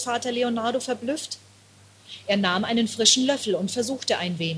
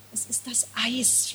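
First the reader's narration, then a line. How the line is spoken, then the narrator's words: Whisper. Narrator (German): flüsterte sie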